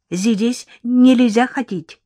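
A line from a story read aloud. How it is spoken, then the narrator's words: Exclamation. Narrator (Russian): воскликнул он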